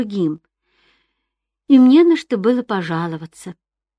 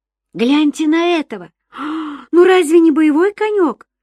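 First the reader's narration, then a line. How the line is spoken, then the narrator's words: Shout. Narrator (Russian): крикнул невзрачный с виду конюх-ирландец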